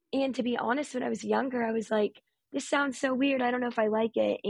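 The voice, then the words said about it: Raspy speaking voice. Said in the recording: “I have always had the rasp ... in my speaking voice right now, partially because it's the morning, but I have always grown up with a raspy voice”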